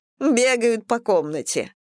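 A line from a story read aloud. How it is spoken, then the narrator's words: Laughing. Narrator (Russian): рассмеялась Анна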